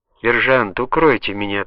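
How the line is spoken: Whisper. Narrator (Russian): прошептал он

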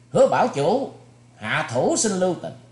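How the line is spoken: Alarmed shout. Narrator (Vietnamese): Thủy Tuấn Hạo nghe tiếng rú dài, bất giác mặt biến sắc, quát lên

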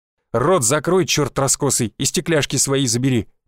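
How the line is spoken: Growl. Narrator (Russian): прорычал Александр

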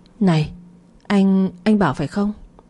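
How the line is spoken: Stammering. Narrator (Vietnamese): Lan ấp úng

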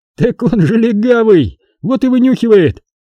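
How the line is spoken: Laughing. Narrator (Russian): рассмеялся

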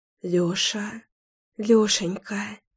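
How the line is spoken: Breathless exhale. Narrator (Russian): выдохнула

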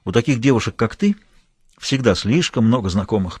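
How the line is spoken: Grumbled. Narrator (Russian): проворчал Эдвард

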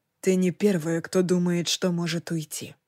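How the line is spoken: Gentle. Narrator (Russian): мягко сказал он

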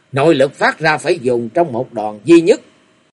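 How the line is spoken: Loud shout. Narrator (Vietnamese): chàng thét lớn

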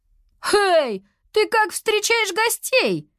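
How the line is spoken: Indignant girl shouting. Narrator (Russian): Возмущенно крикнула девочка

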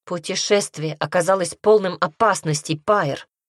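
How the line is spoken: Sharp remark. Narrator (Russian): резко заметила она

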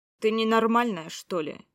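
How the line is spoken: Angry question. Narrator (Russian): Зло спросил один из полицейских

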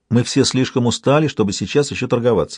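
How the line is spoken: Plain. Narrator (Russian): сказала она

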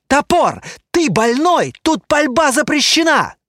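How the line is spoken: Shouted. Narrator (Russian): крикнул Тиби

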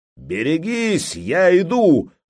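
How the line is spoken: Roar of hundreds. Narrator (Russian): взревели сотни глоток

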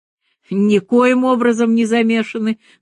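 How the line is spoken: Heated exclamation. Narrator (Russian): горячо воскликнул Порекордов

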